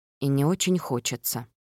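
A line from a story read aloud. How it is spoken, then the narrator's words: Muttered. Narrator (Russian): Я пробормотала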